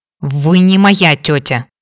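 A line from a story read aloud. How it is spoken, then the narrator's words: Restrained hiss. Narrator (Russian): прошипел Кейн, с трудом сдерживаясь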